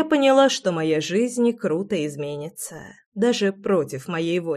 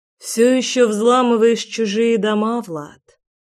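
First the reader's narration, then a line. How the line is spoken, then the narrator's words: Sighing. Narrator (Russian): Вздохнула я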